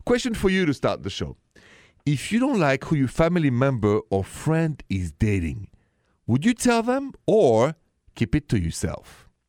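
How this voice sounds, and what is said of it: Thick French accent. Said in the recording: “The accent is thick and French, straight from Paris.”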